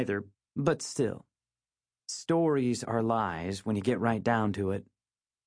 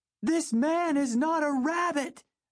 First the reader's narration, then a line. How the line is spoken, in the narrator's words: shouted